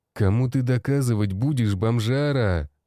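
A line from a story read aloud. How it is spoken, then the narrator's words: Growled. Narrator (Russian): Прорычал сальнолицый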